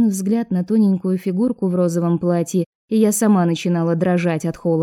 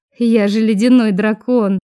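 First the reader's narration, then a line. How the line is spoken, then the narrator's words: Ringing laugh. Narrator (Russian): звонко рассмеялась Изабель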